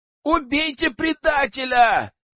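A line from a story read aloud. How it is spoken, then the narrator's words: Yelling. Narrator (Russian): заорал Кастусь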